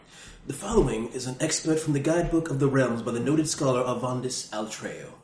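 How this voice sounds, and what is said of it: Put-on silly British accent. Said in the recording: “I'm going to use a silly voice ... I'm using a British accent”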